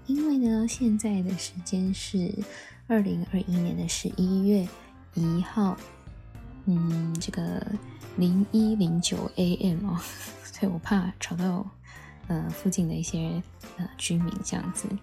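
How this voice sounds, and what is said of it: Quiet, hushed speaking voice. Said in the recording (Chinese): “现在的这个声音啊，感觉吼有一点小声”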